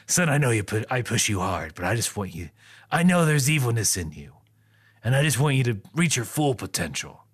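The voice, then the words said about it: Put-on evil villain voice. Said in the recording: “let me put on the evil voice.”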